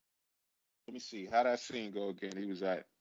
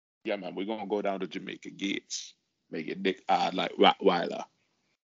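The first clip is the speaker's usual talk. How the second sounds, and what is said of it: Imitates another person's voice. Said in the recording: “the impersonation of Louis Rankin”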